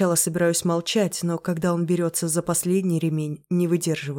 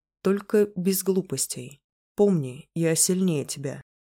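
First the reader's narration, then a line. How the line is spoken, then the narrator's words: Calm speech. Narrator (Russian): спокойно говорит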